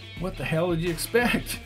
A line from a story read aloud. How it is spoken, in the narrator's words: laughed Baker